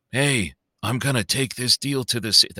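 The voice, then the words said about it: Bad Jensen Ackles impression. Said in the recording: “That's my horrible Jensen Ackles and, you know, impersonation.”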